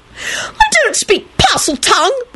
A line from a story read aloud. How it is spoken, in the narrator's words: Rosie screamed